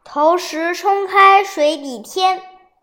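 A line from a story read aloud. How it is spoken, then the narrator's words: Loud sudden recitation. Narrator (Chinese): 秦观突然领悟，大声念出下联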